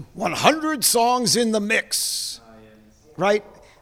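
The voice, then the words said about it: Announcer voice. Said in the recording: “I'm going to do this in the announcer voice too.”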